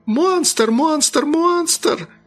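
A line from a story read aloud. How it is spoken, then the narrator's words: Shrieking. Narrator (Russian): завизжала мисс Джонс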